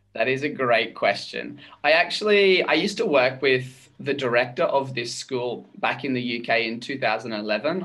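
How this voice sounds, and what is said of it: Australian accent. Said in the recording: “you're not Bolivian, obviously. I'm sure people are figuring that out from your accent right now ... I'm actually from Australia”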